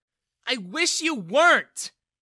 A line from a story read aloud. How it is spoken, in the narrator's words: Bella yelled at him